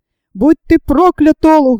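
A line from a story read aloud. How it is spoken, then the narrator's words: Shout. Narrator (Russian): закричал Зэб Стумп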